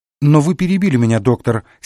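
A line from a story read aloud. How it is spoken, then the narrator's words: Angry old woman. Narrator (Russian): сердито заметила старушка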